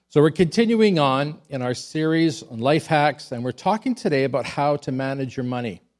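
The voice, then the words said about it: Sick, slightly off-sounding voice. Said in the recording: “I was feeling sick ... I picked up a virus, so if my voice sounds a little bit funny”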